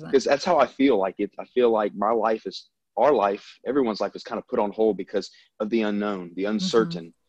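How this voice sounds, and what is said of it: Southern American accent. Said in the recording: “I'm from the South. I mean, obviously everyone can probably tell by my accent”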